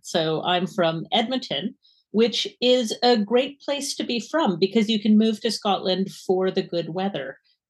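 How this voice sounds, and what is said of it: Canadian English accent. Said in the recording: “my accent is unfortunately not Scottish, wish it was, but it is Canadian”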